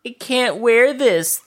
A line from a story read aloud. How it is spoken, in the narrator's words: Thea whined